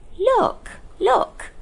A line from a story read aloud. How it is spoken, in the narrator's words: cried Diggory